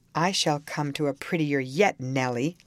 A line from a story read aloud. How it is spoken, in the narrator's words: laughed the misguided man, recovering his hardness